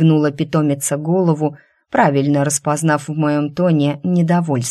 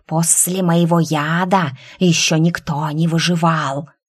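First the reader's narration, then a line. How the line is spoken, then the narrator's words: Quiet hiss, snake. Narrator (Russian): Все так же тихо прошипела змея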